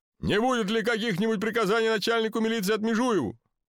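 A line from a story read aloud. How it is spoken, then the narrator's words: Devoted official's shout. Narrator (Russian): представитель исполнительной власти с беззаветной преданностью в голосе прокричал прямо по Гоголю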